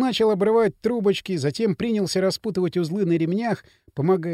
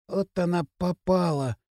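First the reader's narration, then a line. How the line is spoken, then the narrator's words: Sudden whisper. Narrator (Russian): Прошептал вдруг восьмиклассник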